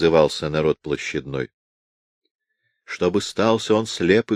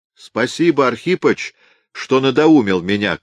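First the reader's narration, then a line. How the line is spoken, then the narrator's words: Shouting to a crowd. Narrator (Russian): кричал в толпу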